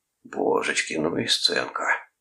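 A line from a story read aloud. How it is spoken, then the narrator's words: Whisper. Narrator (Russian): прошептал Клод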